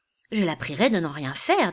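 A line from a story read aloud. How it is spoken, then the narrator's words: Plain. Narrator (French): dit Isabelle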